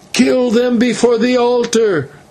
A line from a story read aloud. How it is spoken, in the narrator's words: they shouted